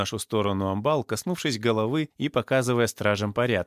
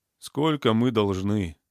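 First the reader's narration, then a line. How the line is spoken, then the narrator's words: Sighing. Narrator (Russian): вздохнул Миша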